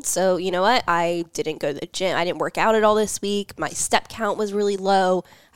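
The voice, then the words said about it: Sick voice from a cold. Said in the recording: “I've been sick this week. You can probably hear it in my voice ... I had a pretty nasty cold”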